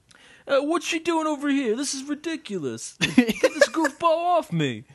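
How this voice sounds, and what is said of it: Grouchy old New Yorker man voice. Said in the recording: “the voice of a, like, 50-year-old New Yorker man ... It's like Danny DeVito ... accent ... it just sounds like a grouchy old man”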